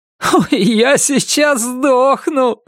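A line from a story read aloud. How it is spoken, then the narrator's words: Laughing. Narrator (Russian): смеялся Норрис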